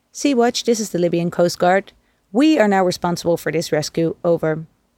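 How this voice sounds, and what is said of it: Crackly radio voice, heavy Arabic accent. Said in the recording (Dutch): “Krakerig en met een zwaar Arabisch accent.”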